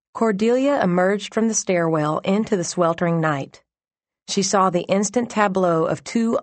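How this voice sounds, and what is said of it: Usual voice. Nothing is said of it.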